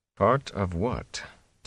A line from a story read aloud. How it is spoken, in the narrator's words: Tom said softly